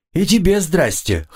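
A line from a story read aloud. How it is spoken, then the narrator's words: Wry grunt. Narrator (Russian): хмыкнул я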